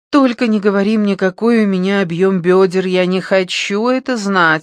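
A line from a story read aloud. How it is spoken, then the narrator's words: Groaning. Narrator (Russian): стонала она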